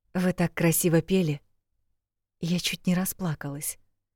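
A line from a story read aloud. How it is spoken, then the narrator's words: Whisper. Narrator (Russian): шепнула я ей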